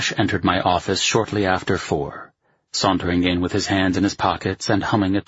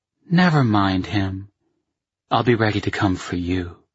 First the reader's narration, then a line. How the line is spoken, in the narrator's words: she purred back